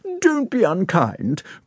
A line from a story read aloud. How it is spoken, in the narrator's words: cried Anna Pavlovna from her end of the table